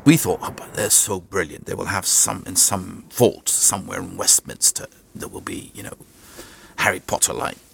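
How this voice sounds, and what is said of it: Theatrical faux English accent. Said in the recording (Dutch): “dat accent, het is zo'n theatrale maal ... hij heeft zo'n fake, zo'n faux English accent ... hij klinkt als een... zo'n griezelige musical casting director. À la Job Goschalk. Zo theatraal”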